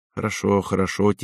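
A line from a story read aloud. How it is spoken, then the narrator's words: Quiet reply. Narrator (Russian): тихо отозвался Иржи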